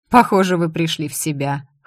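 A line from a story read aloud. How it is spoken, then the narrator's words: Smirking grunt. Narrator (Russian): хмыкнул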